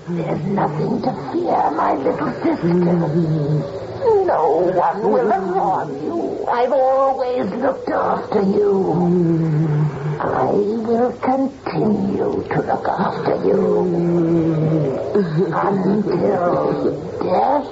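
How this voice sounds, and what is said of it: Strange, unfamiliar voice. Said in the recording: “It's a weird voice. It's certainly not Miss Agatha's.”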